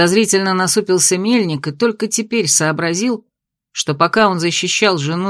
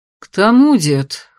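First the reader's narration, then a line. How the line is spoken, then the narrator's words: Gloomy sigh. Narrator (Russian): хмуро вздохнул магистр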